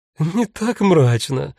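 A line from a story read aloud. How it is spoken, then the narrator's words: Sudden laugh, crow. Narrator (Russian): внезапно рассмеялась ворона Эсмеральда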